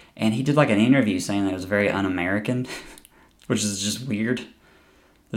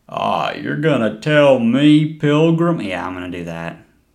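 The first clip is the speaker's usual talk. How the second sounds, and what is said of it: John Wayne impression. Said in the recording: “We're still doing the same impersonation of John Wayne.”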